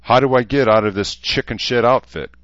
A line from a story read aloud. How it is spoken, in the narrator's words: Cleo Ronson asked with a bitter laugh